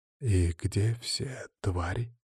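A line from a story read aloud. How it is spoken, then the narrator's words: Quiet question. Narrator (Russian): тихо спросил Никита Михайлов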